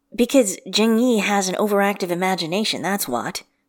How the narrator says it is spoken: Wei Yang says smoothly

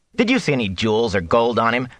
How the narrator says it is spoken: Matt scoffed

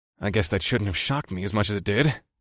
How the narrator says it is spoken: I muttered

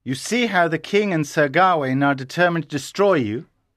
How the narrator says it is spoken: Sir Bors said

